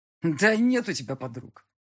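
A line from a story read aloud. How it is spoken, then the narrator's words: Malicious smirking tone. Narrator (Russian): зло ухмыльнулся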